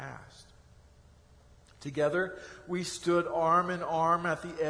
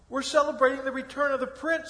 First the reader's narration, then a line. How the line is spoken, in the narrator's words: exclaimed